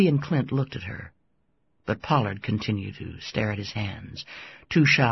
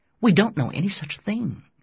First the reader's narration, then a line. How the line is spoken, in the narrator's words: Julie said sharply